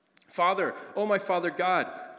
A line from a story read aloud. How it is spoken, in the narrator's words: I cried with growing confidence